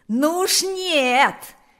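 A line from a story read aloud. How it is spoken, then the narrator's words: Shouting loudest. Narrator (Russian): кричал громче всех Панас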